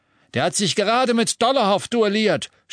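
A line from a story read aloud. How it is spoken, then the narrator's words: Shouted. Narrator (German): schrie Aberforth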